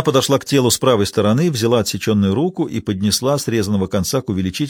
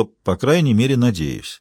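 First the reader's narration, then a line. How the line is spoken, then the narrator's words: Calm addition. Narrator (Russian): Маура ... спокойно прибавила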